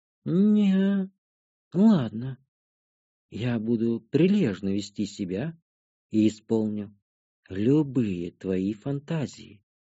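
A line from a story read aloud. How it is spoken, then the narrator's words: Whispered in ear. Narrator (Russian): шепнула темная мне на ухо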